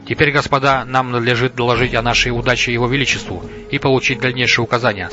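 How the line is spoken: Plain. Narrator (Russian): сказал он

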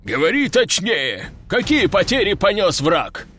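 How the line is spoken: Gruff bark. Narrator (Russian): рыкнул генерал

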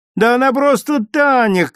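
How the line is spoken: Girl shouting. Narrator (Russian): крикнула Митричу одна девочка

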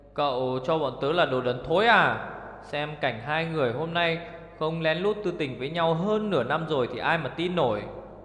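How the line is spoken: Roaring. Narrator (Vietnamese): Nhị Hỉ gầm lên

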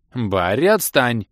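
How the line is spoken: Indignant. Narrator (Russian): Возмущенно сказала пассия маркиза

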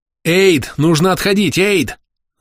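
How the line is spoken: Alarmed yelling. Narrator (Russian): Заорал я, чувствуя, что под дракаром появилось несколько ранее незамеченных аур

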